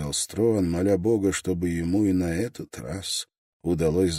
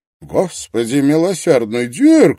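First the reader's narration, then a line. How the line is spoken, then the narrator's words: Exclamation. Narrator (Russian): воскликнул Лонгстаф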